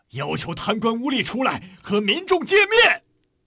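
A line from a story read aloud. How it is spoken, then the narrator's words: Crowd shouting. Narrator (Chinese): 人们紧跟着喊起来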